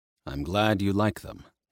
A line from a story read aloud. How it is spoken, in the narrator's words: he said, his voice quiet